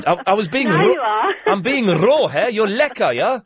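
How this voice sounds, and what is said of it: Put-on South African accent. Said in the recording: “I was doing my South African accent.”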